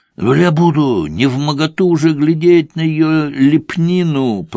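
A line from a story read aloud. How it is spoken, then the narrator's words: Groaning. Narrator (Russian): простонал Болик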